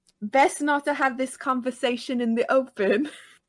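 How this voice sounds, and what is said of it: Put-on British accent. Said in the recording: “the problem with the British accent for me”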